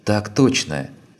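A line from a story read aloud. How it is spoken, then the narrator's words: Near-sighing answer. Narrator (Russian): чуть не вздохнув, ответила Лина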